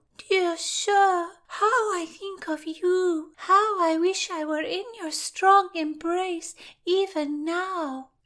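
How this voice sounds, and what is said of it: High simpering girlish voice. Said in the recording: “high voice of a simpering girl”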